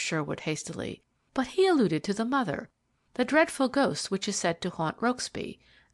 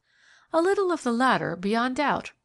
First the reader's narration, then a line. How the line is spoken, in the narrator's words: replied the girl, laughing